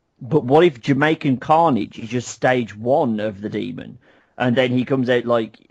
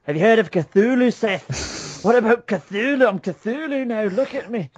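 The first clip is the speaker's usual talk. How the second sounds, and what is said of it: Weak attempted Irish accent. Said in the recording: “I really can't do an Irish accent, can I? ... No, that's more Finn McBalor.”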